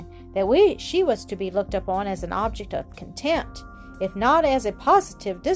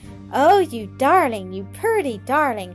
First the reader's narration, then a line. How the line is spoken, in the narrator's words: cried Adelaide